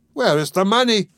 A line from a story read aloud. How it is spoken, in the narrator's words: cried